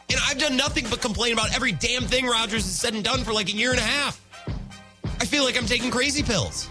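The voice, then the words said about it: Out of breath after ranting. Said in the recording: “Oh, now I'm out of breath. God, I'm out of shape.”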